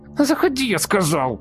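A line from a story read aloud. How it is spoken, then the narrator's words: Shrieking under strain. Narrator (Russian): Не выдержав напряжения, завизжал он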